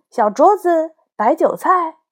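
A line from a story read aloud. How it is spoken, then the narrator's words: Loud. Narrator (Chinese): 大声地说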